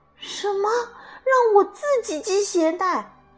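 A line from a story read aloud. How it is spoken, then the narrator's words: Astonished. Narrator (Chinese): 歪歪兔吃惊的张大了嘴巴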